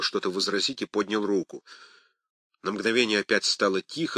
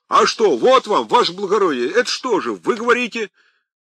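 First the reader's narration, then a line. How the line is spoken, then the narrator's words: Ringing tenor drowning all. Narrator (Russian): звонкий тенор в задних рядах зазвенел, покрывая все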